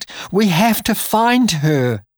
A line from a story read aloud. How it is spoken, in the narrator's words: she cried